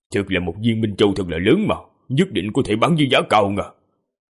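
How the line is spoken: Greedy muttering. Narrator (Vietnamese): Đại hán ánh mắt lộ ra vẻ tham lam, lẩm bẩm

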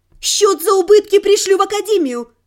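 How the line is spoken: Shouting. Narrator (Russian): крикнула я

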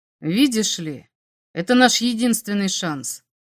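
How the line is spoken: Calm, matter-of-fact alien. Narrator (Russian): спокойно сказал инопланетник, как будто они обсуждали какую-то рыночную сделку

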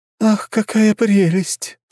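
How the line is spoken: Sighing. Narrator (Russian): вздохнула Маруся

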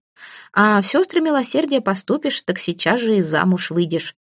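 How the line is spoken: Plain. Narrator (Russian): сказала ей докторша

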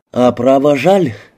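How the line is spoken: Sighing. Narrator (Russian): вздохнул Ридер

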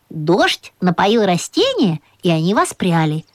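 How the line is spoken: Plain. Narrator (Russian): сказала мама

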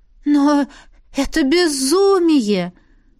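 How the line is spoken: Exclaimed. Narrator (Russian): воскликнула Лесли

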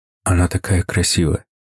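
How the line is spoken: Whisper. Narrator (Russian): прошептал я

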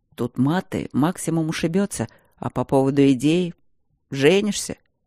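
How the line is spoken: Quiet reply. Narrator (Russian): Так же тихо ответил Демьян

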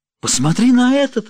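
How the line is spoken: Exclamation. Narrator (Russian): воскликнула она

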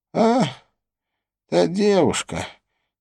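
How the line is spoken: Quiet speech. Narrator (Russian): тихо произнес он

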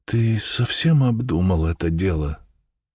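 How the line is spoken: Timid question. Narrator (Russian): Мина спрашивала робко

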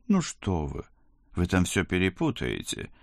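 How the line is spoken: Alarmed. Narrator (Russian): всполошился инспектор

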